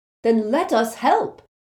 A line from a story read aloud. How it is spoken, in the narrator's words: said Neville angrily